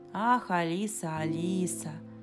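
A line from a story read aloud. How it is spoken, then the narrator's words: Muttered with a silly smile. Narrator (Russian): пробормотал, глупо улыбаясь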